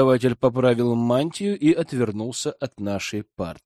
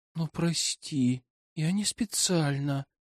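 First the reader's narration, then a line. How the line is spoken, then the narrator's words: Guilty whisper. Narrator (Russian): Прошептала виновата подруга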